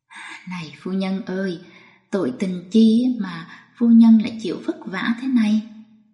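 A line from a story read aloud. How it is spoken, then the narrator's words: Old man, sighing. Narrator (Vietnamese): Một ông thư ký già nói như tiếng thở dài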